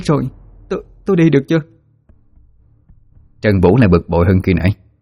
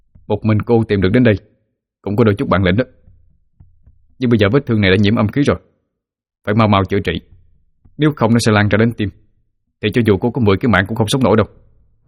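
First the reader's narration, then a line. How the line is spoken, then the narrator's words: Cold snort, then shout. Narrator (Vietnamese): Hắn hừ lạnh rồi quát lên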